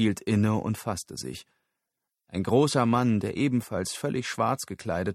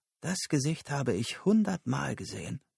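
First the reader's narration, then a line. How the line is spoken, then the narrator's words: Whisper. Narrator (German): flüsterte sie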